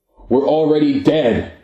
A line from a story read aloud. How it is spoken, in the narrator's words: shouted